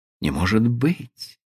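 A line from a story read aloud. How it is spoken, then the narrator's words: Frightened astonished female whisper. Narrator (Russian): со страхом и удивлением прошептала она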